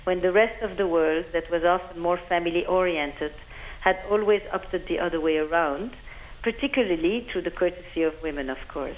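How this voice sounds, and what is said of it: French-sounding accent. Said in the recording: “I have a French accent”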